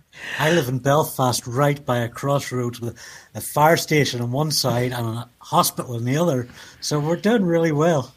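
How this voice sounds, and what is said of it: Belfast accent. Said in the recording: “your lovely accent”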